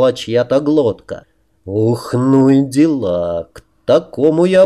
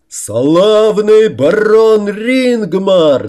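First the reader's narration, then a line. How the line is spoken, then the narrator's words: Two voices shouting. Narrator (Russian): заорал Трим на пару с Рамусом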